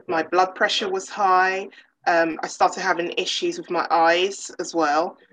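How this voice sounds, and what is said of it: English accent. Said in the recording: “I love your accent. I've always loved the English accent.”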